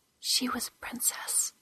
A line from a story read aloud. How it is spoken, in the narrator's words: Metheny whispered